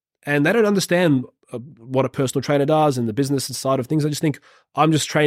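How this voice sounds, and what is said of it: Usual voice. Nothing is said of it.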